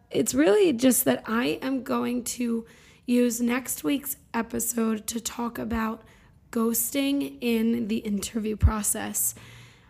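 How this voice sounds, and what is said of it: Hoarse voice. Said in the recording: “I need to put myself on vocal rest ... my hoarse voice”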